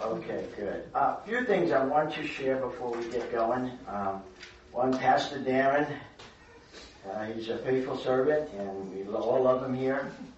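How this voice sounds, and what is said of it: Raspy voice. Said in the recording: “my voice is a little raspy.”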